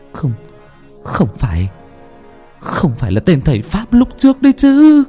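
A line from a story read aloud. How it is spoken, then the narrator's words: Terrified trembling stammer. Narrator (Vietnamese): rụng rời, run rẩy lắp bắp ở trong miệng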